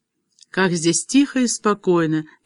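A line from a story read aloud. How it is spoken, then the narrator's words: Dreamy, tipsy woman. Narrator (Russian): мечтательным голосом произнесла опьяневшая девушка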